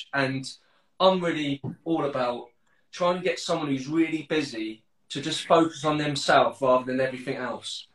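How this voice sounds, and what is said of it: Southern English accent. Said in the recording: “although I sound southern.”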